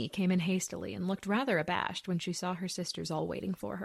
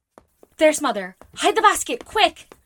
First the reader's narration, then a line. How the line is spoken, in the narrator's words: cried Joe